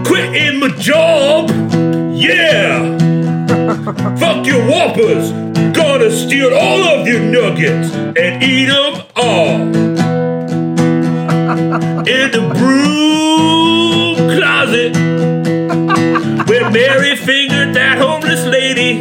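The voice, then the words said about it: Fake British accent. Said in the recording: “So I'll do a fake British accent for this one.”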